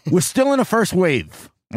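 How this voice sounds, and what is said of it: Brooklyn accent imitating Anthony Fauci. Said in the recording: “I'm going to see if I can do a Brooklyn accent here... It wasn't that good”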